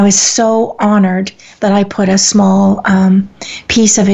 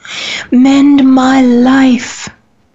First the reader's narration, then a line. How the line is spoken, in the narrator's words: each voice cried